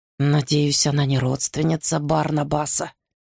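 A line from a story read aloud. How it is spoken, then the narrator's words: Muttering. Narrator (Russian): бормочет Эфраим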